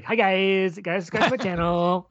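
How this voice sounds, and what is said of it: Impression of a YouTuber voice. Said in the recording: “your impression of a YouTuber”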